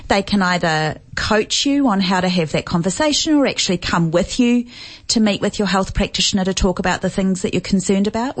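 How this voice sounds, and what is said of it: New Zealand accent. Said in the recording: “As you may be able to tell from my accent, I'm from New Zealand.”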